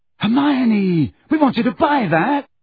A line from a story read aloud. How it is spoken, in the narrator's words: shouted Ron